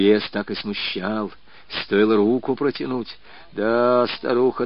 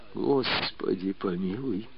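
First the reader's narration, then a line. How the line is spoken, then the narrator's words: Pleading. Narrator (Russian): взмолился Степан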